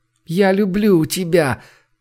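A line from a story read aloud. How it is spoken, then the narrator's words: Moaning. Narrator (Russian): простонала Женя ему вслед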